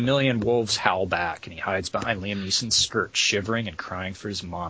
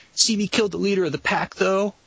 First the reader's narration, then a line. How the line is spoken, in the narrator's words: whines